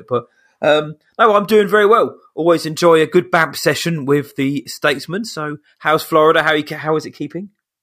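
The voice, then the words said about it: Croaky, hoarse voice. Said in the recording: “I've been struck down this weekend with a cold and a croaky throat ... my voice just suddenly goes really high because my throat can't control it”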